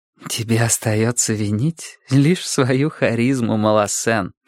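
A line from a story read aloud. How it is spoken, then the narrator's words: Whispered. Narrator (Russian): шепнула мне Жюли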